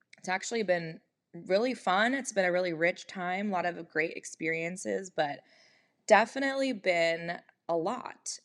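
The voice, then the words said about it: Slightly hoarse voice. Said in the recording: “you can tell in my voice, probably, I'm still a little bit hoarse”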